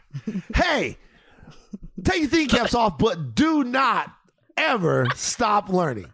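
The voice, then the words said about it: Exaggerated, over-the-top announcer voice. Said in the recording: “Take us out in your extra voice.”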